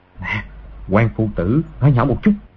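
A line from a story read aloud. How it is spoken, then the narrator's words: Soft. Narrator (Vietnamese): Từ Thiên Xuyên nói khẽ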